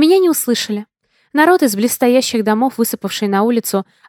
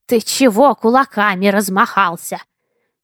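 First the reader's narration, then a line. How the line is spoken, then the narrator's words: Toothless old man hissing. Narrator (Russian): шипел беззубый старикан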